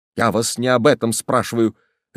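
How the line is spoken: Sudden sharp shout. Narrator (Russian): резко крикнул вдруг Кашперов, сверкнув глазами

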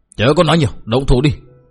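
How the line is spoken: Shouting. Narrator (Vietnamese): Nhất Điệp đạo nhân quát tháo

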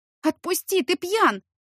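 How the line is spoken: Shouting. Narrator (Russian): закричала я

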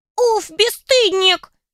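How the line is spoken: Squeaky drawl, female imp. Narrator (Russian): Писклявым голоском протянул второй домовенок, явно женского пола

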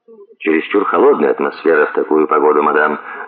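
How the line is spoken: Dry reply. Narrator (Russian): ответил сухо

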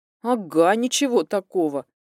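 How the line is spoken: Snorting. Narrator (Russian): хмыкнула Алинка

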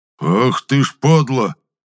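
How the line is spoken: Angry growl. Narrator (Russian): зарычал Митрофан

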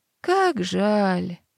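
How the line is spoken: Bored drawl. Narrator (Russian): протянула мама

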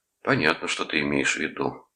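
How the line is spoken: Sigh. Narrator (Russian): вздохнул Рудольф

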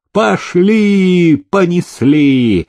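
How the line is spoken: Cheerful shout. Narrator (Russian): весело закричал селезень

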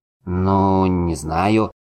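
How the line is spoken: Confused drawl. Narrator (Russian): растерянно протянул Дуэнд

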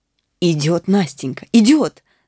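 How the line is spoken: Delighted shout. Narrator (Russian): закричал я в восторге

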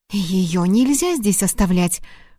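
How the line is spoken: Frightened hiss. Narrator (Russian): шикнула испуганно Лори

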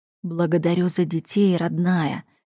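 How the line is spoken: Whisper. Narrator (Russian): шепнул

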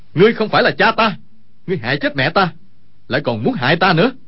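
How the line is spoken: Sudden accusing shout. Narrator (Vietnamese): Dương Khang đột nhiên quát

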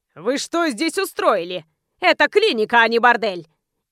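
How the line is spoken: Bark. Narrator (Russian): рявкнул

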